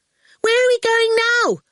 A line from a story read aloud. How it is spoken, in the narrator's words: Orful shouted